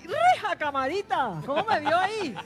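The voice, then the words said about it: Put-on regional Colombian accent. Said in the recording (Spanish): “A mí se me pegan todos los acentos.”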